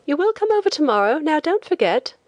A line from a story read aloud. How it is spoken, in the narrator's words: the young woman on the boat called out